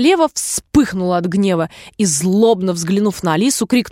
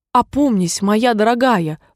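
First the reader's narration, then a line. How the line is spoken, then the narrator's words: Timid speech. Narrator (Russian): робко проговорил король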